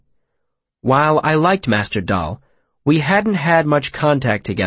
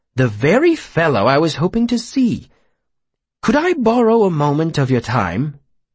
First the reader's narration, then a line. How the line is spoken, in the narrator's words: he smiled warmly